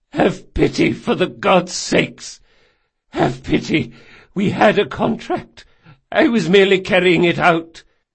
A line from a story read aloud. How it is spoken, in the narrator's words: he croaked hoarsely